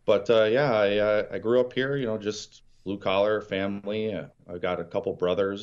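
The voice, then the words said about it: Great Lakes Midwestern American accent. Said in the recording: “You can probably tell by my accent that I come from the Great Lakes area.”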